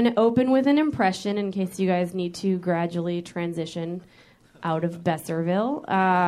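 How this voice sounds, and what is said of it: Usual voice. Nothing is said of it.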